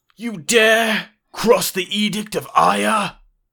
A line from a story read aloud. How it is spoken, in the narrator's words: He then yells out